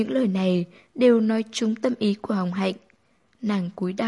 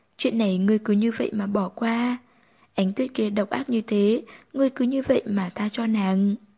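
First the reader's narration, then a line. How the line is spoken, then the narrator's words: Soft laughing speech. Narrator (Vietnamese): Vu Tu Nguyệt cười cười, cười khẽ nói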